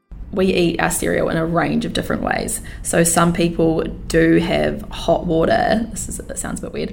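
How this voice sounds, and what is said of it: Clear vocal fry, creaky low voice. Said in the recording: “a nutritionist from New Zealand, and she had very clear vocal fry”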